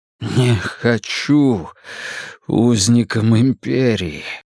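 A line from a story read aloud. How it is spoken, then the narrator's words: Forced out. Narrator (Russian): выдавил он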